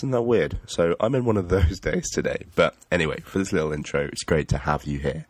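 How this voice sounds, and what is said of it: Congested voice with sniffles. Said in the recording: “I have a little bit of a cold today, so please excuse the sniffles and the snuffles and the coughs”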